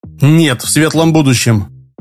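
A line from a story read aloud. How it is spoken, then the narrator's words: Snapping retort. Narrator (Russian): огрызнулся Шорох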